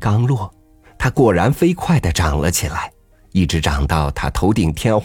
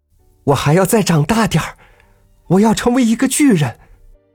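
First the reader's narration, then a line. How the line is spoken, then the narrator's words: Loud shout. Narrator (Chinese): 大声的叫了起来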